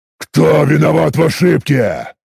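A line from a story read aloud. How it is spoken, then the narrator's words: Spat angrily. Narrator (Russian): злобно выплюнул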